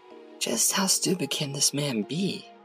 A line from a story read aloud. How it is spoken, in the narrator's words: The dean spoke in a restrained tone